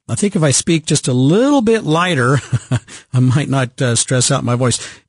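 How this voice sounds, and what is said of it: Froggy, congested voice with a cold. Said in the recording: “my cold here ... my head's just full of yuck, and my voice is a little froggy”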